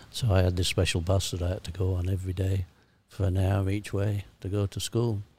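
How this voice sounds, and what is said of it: Broad Sheffield English accent. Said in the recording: “you might think I've got an accent now ... you're one of the Sheffield kids ... you talk funny ... we had a different accent to the kids from Chesterfield ... we were much broader”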